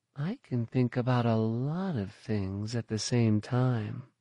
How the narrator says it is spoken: Terran purred

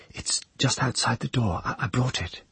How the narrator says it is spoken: she replied, still whispering

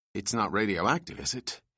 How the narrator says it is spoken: he asked anxiously

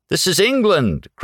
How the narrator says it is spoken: cried Blank

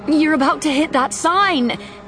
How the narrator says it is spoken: Kira yelled

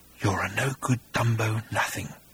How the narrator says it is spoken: whispered the creature

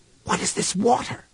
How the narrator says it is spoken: he whispered

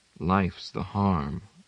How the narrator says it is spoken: Laura said quietly, dryly

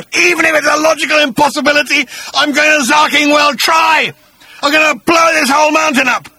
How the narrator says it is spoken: screamed

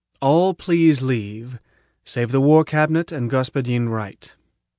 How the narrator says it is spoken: Prof said firmly

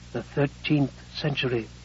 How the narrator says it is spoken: the phone whispered

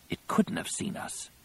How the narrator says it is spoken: Ganner whispered

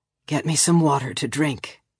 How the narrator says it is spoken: he told Rollery softly

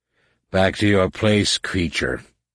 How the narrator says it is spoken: Shimra growled

